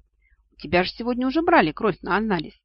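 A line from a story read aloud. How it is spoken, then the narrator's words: Sigh. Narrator (Russian): вздохнул Инкуб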